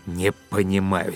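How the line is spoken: Angry. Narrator (Russian): сердито сказал Быков

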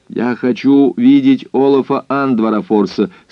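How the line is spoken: Very loud. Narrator (Russian): сказал он очень громко

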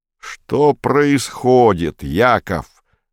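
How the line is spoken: Barked. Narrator (Russian): гаркнул Комов

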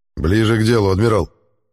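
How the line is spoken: Irritated. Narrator (Russian): раздраженно ответил Аббас

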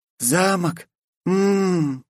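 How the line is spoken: Moaning. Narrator (Russian): застонала Глория

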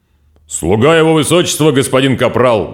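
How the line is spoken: Robot barking. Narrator (Russian): гаркнул робот

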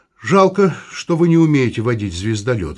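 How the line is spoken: Sighing. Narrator (Russian): вздохнул Вадим

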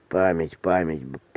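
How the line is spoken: Impatient mutter. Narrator (Russian): пробормотал Корнеев нетерпеливо

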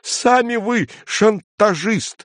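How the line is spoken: Agitated shout. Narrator (Russian): выкрикнул цензор

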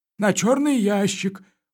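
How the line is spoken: Glum. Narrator (Russian): уныло сказал комендант

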